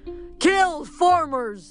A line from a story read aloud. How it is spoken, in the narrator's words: Ares screamed in his head